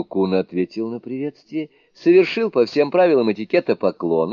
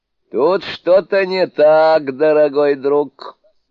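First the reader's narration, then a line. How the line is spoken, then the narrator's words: Laughing. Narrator (Russian): сказал смеясь волшебник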